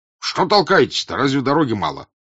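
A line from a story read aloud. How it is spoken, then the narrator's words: Angry. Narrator (Russian): обратился он сердито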